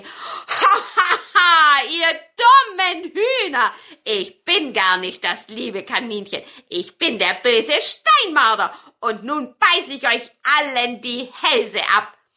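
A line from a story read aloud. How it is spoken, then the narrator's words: Marten, laughing. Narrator (German): lachte der Steinmarder und sagte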